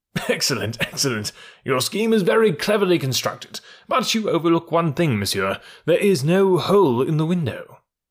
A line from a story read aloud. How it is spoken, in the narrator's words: The Count laughed and said